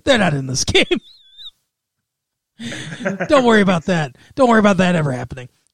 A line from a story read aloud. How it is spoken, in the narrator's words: I laughed, and I go